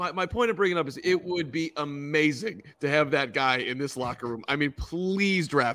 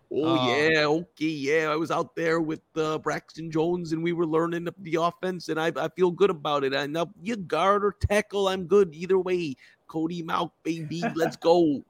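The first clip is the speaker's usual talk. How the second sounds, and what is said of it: Poor put-on Northern accent. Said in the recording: “It's a terrible Northern accent.”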